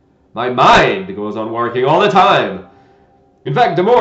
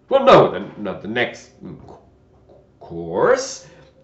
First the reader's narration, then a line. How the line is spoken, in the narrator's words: the knight said in a slow, thoughtful tone